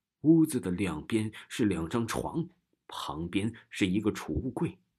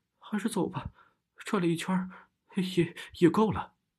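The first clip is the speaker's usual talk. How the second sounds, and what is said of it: Slightly trembling voice. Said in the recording (Chinese): “微微发颤的声音”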